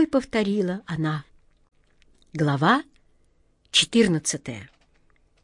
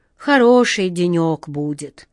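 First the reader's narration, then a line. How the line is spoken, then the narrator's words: Sighing. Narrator (Russian): вздохнул старпом Сеня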